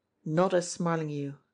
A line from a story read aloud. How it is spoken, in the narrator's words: confided Jimmie Dale grimly to himself as he ran